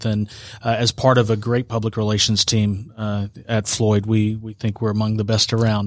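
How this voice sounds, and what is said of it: Smooth radio-announcer voice. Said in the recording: “got a good radio voice.”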